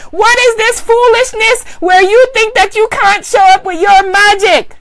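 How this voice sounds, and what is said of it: Put-on Guyanese accent. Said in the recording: “in my Guyanese voice.”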